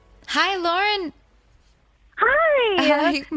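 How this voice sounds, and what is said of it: Oddly chipper, upbeat voice. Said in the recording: “my voice was oddly chipper”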